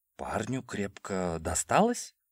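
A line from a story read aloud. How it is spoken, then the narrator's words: Uncertain guess. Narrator (Russian): предположил я неуверенно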